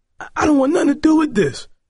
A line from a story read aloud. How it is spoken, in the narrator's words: Roland cried